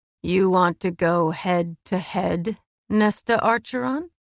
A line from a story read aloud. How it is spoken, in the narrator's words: He purred